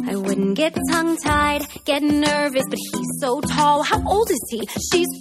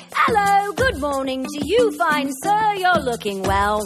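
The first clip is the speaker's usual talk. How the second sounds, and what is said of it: Put-on accent. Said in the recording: “Why am I doing an accent?”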